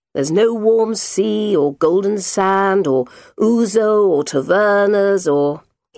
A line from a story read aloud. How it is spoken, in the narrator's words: answered lazily